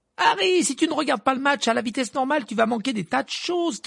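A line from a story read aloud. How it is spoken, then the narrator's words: Shouted. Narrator (French): cria Hermione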